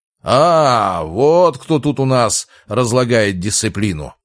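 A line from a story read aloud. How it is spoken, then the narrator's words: Growling. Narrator (Russian): прорычал декан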